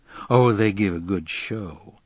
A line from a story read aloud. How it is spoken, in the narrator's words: said one of them in a deep, rich voice